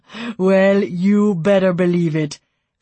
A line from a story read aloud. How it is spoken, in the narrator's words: Finn said, laughing